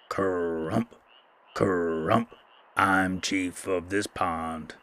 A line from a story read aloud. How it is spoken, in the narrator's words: croaked a very large bullfrog